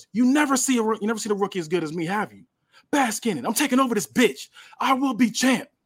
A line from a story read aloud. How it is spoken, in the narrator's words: Melo yells